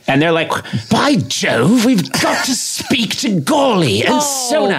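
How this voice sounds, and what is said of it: Bad put-on posh British accent. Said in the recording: “your British accent is ridiculous ... Bad.”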